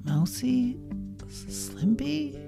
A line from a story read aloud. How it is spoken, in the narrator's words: she croaked, blinking dazedly